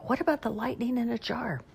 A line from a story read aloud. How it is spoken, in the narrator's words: I whispered to Grandma